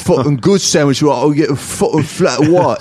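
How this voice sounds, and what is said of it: Put-on old-time British accent. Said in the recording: “Someone's been practicing their old-time limey accent.”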